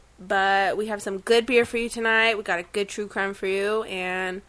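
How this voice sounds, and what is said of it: Unwell, under-the-weather voice. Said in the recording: “excuse me for my voice. I'm not feeling so well. I'm a little bit under the weather ... sorry for my voice”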